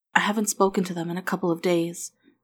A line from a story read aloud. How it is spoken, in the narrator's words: Amy said quietly